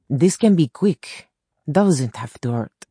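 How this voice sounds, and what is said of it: Thick accent. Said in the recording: “He had a thick accent.”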